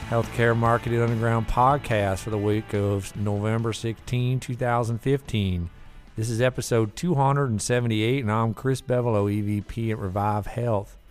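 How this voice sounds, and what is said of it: Bad put-on Southern accent. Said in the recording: “I have a southern accent for the rest of this ... My accent that was really bad”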